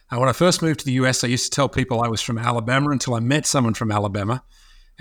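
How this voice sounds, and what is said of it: Australian accent. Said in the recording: “my accent, you only have to listen to me for a very short period of time and you can figure out that I'm not from here ... I'm originally from Australia”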